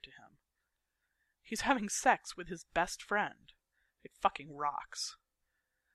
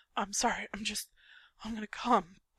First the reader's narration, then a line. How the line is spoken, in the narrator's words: Patrick pants against her cheek